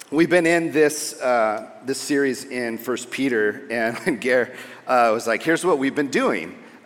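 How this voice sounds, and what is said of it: American California accent. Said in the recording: “I am a California kid, so if my accent throws you”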